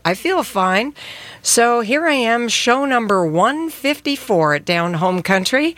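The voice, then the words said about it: Congested voice from a cold. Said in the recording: “you can hear from my voice that I got a bit of a cold”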